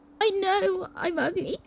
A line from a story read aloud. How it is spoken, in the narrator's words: she sobbed